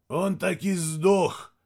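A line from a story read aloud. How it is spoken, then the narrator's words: Hoarse statement. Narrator (Russian): хрипло констатировал Мирадзе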